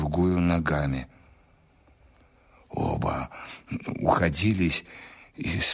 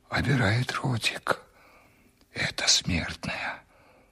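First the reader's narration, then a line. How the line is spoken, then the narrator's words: Servant whispering. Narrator (Russian): прошептал мне на ухо слуга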